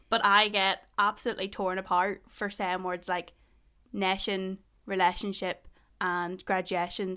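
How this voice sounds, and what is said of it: Mild Northern Irish Ballymena accent. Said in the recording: “my accent ... not just my accent, but Ballymena accents in general. To be fair, I don't even have a strong Ballymena accent ... I supposedly say all those words wrong”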